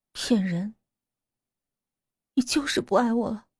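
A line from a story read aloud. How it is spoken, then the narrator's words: Cold. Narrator (Chinese): 李小梅冷冷道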